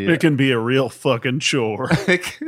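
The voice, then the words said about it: Sarcastic delivery. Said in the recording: “I was being sarcastic”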